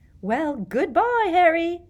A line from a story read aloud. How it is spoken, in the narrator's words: Rita Skeeter called merrily to him